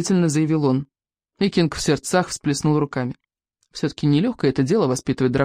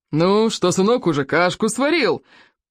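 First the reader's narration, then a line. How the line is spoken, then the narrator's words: Loud roar. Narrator (Russian): проревел он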